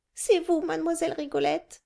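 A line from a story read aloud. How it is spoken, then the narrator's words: Exclaiming. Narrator (French): s'écria Anastasie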